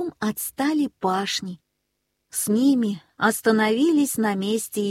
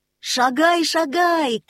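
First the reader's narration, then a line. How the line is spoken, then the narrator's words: Shouted from above. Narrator (Russian): крикнул ему сверху Нильс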